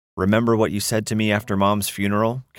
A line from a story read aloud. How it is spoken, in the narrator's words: Kettman asked